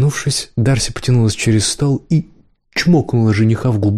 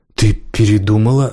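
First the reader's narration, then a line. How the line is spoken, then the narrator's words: Sulky, offended. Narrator (Russian): обиженно насупился жених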